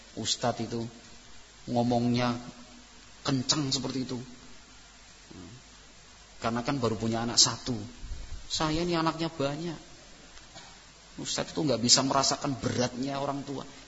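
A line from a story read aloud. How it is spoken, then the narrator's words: Whispered. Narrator (Indonesian): bisikin sambil bilang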